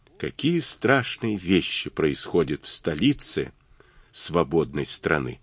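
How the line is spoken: Barely audible. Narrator (Russian): Авраам сказал едва слышно

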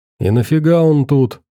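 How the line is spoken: Displeased tone. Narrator (Russian): поинтересовался Фил недовольным тоном

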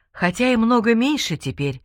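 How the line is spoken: Sighing. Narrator (Russian): вздохнул Абдул-Хамид

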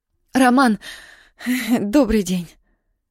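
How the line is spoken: Breathless exhale. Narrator (Russian): выдохнула Яна

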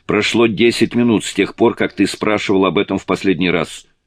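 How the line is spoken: Sharp reply. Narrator (Russian): Петти резко ответила

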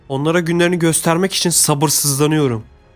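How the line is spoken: Shouted. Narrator (Turkish): diye bağırdı

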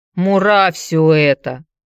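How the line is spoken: Grumbled. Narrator (Russian): пробурчал Петер

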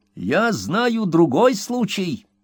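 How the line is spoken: Old man, giggles fading. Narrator (Russian): сказал старичок, когда хихиканье его постепенно стихло

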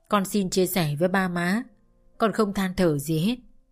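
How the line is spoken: Smiling. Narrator (Vietnamese): Tôi mỉm cười

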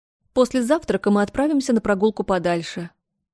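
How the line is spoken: Plain. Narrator (Russian): сказала графиня

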